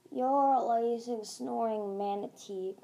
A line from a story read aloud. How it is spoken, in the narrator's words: Glory grumbled